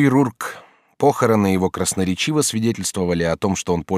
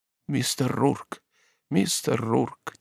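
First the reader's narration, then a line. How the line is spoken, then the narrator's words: Quiet, broken English. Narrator (Russian): тихонько повторял он, беспощадно коверкая английский язык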